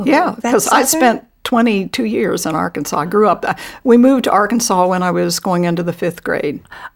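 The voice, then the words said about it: Southern American accent. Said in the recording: “you have a Southern accent”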